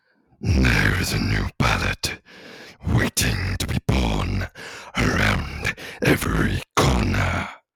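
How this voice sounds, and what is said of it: Orc character voice, Morgoth. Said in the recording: “a voice that I like doing? ... this is Morgoth the Orc from Lord of the Rings”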